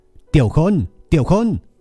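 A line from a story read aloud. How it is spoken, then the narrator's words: Loud repeated shout. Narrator (Vietnamese): Lâm Dương lại lần nữa hét lớn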